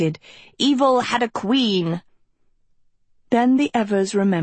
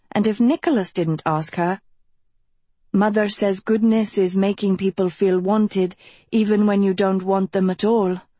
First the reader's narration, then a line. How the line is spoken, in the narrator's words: she sighed to Beatrix